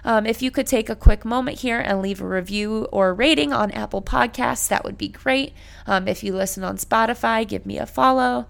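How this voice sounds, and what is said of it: Voice worn out, giving out. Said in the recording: “Sorry for my voice again. I'm really losing it here at the end”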